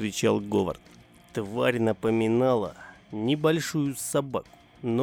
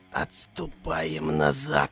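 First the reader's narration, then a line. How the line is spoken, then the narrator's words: Whispered. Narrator (Russian): прошептал охранник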